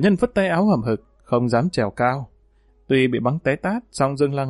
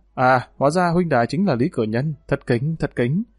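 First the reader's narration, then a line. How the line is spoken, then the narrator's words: Stammering reply. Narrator (Vietnamese): Dương Lăng lắp bắp đáp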